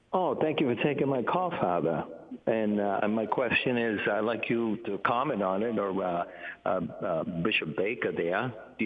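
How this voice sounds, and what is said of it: Massachusetts accent. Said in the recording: “your Massachusetts accent”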